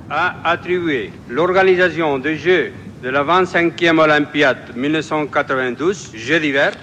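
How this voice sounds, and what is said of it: Catalan-accented French. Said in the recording (French): “avec son accent catalan”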